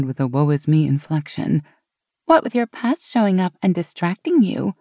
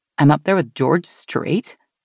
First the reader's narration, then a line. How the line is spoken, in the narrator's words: Meg chuckled at Sean's celebrity crush